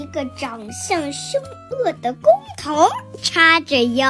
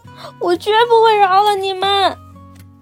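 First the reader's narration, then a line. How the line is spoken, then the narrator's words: Choked sobbing. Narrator (Chinese): 卡梅利多哽咽着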